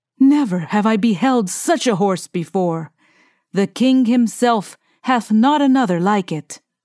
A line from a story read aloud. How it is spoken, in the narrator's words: cried